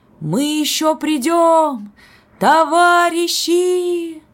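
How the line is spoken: Excited shout. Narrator (Russian): взволнованно крикнул Сережа

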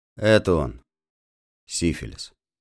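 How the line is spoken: Stern inner voice. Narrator (Russian): вторично мысленно и строго сказал

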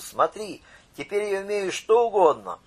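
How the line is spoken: Joyful shout. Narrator (Russian): Радостно крикнул

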